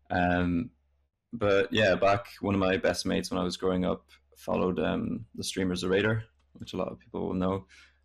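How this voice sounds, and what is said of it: Irish accent. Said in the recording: “despite the Irish accent”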